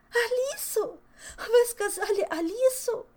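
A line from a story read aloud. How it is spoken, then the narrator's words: Sobbing lament. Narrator (Russian): зарыдала, причитая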